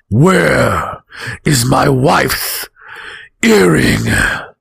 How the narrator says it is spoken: he boomed

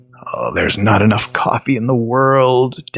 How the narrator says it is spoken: Dad grumbled

